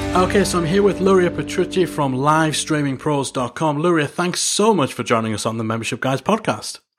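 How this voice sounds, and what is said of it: Foreign-sounding accent. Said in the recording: “I love your accent. I just have always tell foreign people that.”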